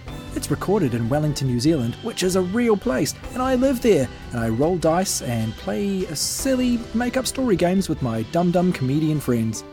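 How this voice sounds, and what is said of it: New Zealand accent. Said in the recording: “people with New Zealand accents”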